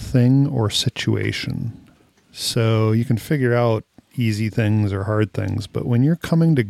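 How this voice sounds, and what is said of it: Usual voice. Nothing is said of it.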